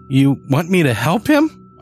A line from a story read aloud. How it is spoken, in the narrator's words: I squeaked